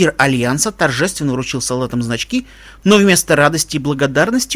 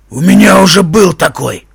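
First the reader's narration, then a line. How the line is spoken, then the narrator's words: Grumble, giant. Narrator (Russian): проворчал гигант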